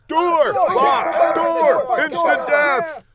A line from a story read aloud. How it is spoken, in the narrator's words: The goon shouted